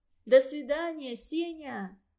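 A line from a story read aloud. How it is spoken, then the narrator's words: Shout. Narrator (Russian): крикнула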